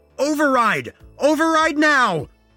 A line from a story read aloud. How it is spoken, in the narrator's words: I screamed